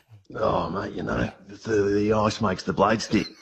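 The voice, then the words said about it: Put-on Australian accent. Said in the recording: “you do an Australian accent very well ... Mate, that is Russell Crowe.”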